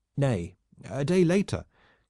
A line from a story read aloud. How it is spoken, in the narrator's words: cried the Breton squire